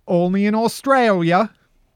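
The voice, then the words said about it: Put-on Australian accent. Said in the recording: “That was my Australian accent.”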